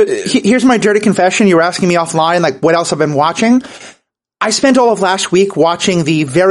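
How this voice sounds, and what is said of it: Usual voice. Nothing is said of it.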